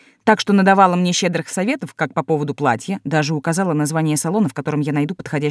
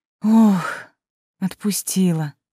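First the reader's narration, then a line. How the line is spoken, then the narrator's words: Exhaled relief. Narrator (Russian): выдохнула декан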